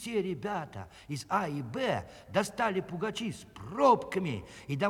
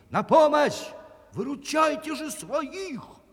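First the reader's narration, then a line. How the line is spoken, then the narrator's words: Shouting. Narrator (Russian): крикнул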